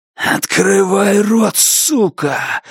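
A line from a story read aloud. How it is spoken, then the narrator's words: Hoarse rasp. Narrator (Russian): хрипит Джордж Армбрастер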